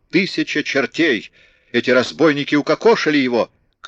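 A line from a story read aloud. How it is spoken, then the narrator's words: Furious shout. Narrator (Russian): яростно крикнул ему в лицо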